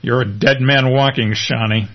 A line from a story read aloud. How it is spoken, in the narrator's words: says Lance